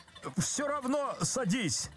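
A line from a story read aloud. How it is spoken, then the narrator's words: Desperate shout. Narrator (Russian): закричал Козлевич отчаянно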